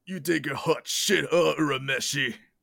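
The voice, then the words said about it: Rough imitation of a character voice. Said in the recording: “That was a bad impression ... it's close enough. It's close enough to Chris Abbott.”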